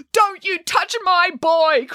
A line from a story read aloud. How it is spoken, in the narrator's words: cried